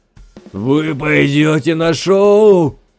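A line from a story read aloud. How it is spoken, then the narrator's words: Shouted. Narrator (Russian): прокричал он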